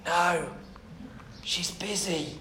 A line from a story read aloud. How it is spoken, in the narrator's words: whispered the child